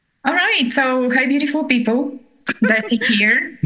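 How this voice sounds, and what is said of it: Thick Bulgarian accent. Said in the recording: “You can recognize me from my accent. You can never, ever mistake my voice... the accent comes from Southeastern Europe, Bulgarian, with some notch of Italian and Greek... My thick Bulgarian accent”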